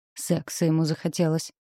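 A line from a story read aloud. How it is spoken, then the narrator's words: Grumbling. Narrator (Russian): проворчала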